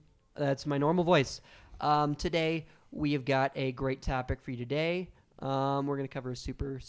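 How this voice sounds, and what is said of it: Usual voice. Nothing is said of it.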